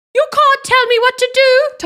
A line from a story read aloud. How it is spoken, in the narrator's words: Tonks screamed